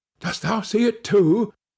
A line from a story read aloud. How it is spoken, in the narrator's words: said his companion in a startled tone